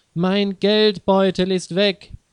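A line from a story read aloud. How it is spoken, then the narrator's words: Calling out. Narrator (German): ruft sie Leo zu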